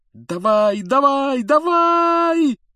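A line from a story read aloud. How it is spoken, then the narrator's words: Desperate yelling. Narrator (Russian): отчаянно вопил Гарри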